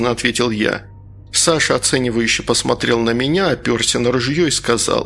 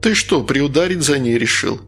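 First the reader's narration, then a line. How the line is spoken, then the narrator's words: Chuckling. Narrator (Russian): хохотнул Саша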